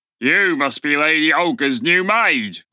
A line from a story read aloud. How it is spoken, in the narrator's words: the guard grunted